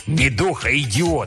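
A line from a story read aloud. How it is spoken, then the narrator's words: Spiteful. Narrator (Russian): сказал он злобно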